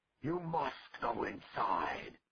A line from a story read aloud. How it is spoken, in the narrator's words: Cordwainer bellowed